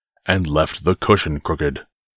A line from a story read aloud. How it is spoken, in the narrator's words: growled the father bear in his great big voice